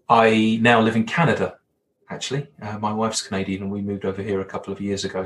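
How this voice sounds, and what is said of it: English accent. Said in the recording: “my Hollywood villain accent ... I'm English”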